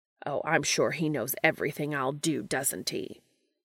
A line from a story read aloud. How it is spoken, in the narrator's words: Castiel snaps